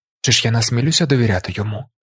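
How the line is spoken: Quiet question. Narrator (Ukrainian): тихо запитав Каладін

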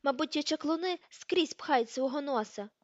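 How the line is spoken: Pale, alarmed exclamation. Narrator (Ukrainian): вигукнула Петунія, збліднувши

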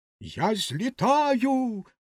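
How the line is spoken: Exclaiming. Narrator (Ukrainian): Вигукнула вона

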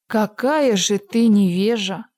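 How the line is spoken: Calm, without anger. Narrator (Russian): отвечала волшебница спокойным голосом, без всякого, впрочем, гнева

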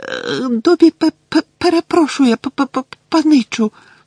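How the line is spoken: Frightened squeak. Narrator (Ukrainian): злякано запищав Добі

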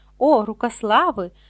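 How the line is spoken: Exclamation. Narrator (Ukrainian): вигукнув містер Борджен

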